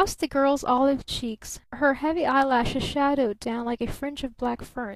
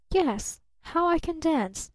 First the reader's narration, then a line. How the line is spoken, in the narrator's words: murmured almost inaudibly